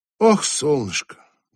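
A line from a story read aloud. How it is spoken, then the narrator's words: Sighing. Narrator (Russian): вздохнул Чарли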